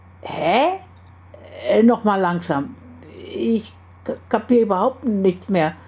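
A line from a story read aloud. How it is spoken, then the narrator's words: Stuttered. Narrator (German): stotterte Carlos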